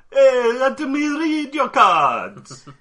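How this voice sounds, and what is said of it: Bad put-on Jamaican accent. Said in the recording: “a bad, like, Jamaican accent”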